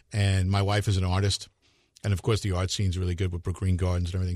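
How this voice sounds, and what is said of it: Mellow radio voice. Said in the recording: “you got a good radio voice ... that's a radio voice if I have ever heard one ... very mellow. It's very mellow.”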